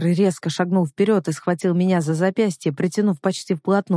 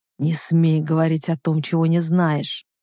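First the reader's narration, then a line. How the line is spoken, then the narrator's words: Growl. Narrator (Russian): прорычал он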